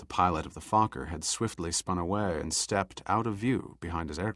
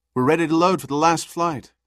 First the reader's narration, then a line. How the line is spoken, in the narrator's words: Kelly called out